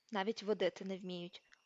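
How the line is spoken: Quiet indignant mutter. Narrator (Ukrainian): пробурмотів він тихенько й обурено

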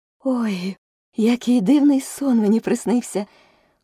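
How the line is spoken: Exclamation. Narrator (Ukrainian): вигукнула Аліса

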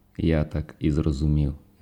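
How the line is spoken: Plain. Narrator (Ukrainian): відповів перевізник

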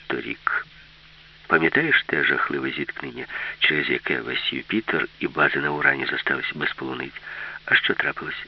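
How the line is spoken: Plain. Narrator (Ukrainian): запитала Аліса

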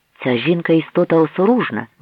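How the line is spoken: Exclamation. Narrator (Ukrainian): вигукнув

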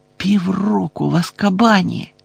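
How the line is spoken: Stunned whisper. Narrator (Ukrainian): приголомшено прошепотів Гаррі

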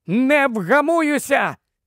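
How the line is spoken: Shrieked. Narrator (Ukrainian): заверещала

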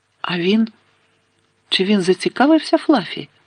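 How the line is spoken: Forced calm question. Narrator (Ukrainian): запитав Гаррі, намагаючись говорити спокійно

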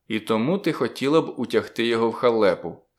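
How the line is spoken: Plain. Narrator (Ukrainian): сказав я

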